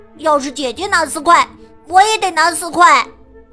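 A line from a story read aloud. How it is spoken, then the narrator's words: Shouting. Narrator (Chinese): 亨利喊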